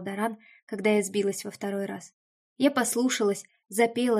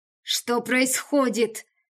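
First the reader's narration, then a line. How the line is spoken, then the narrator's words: Growling. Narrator (Russian): прорычал Даран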